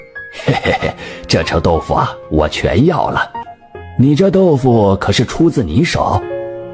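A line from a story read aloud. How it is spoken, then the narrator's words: Old man chuckling. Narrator (Chinese): 那老者嘿嘿一笑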